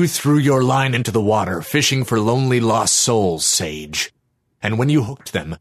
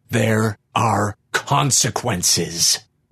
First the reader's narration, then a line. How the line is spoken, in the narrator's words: the creature snarled gleefully